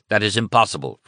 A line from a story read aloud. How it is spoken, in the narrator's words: Fromm snapped